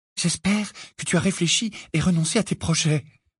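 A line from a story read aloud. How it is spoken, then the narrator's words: Whispered. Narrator (French): murmura Hermione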